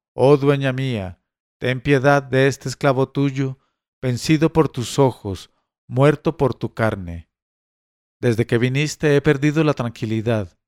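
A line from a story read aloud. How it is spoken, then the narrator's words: Frenzied shout. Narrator (Spanish): Ghanem gritó enloquecido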